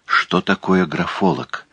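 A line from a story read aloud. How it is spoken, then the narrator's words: Whisper. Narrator (Russian): шепнула она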